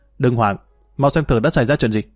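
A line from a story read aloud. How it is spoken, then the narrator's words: Tense shout. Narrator (Vietnamese): Y căng thẳng quát lên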